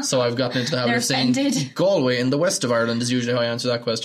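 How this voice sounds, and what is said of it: Irish accent. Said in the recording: “the Irish accent”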